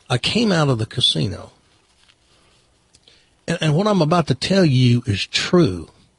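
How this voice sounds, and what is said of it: Put-on Southern accent. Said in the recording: “a girl on television with a Southern accent ... I'll tell my story in this accent.”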